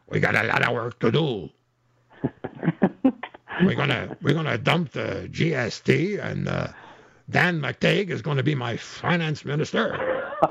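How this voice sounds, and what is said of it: Strained imitation of another person's voice. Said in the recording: “If I do that too long, I'm going to lose my voice.”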